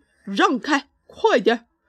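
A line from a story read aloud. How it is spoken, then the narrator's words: Loud shout. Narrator (Chinese): 诺瓦王子大吼一声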